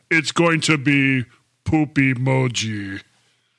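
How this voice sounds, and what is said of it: Deliberately deep voice. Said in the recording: “in my deep voice”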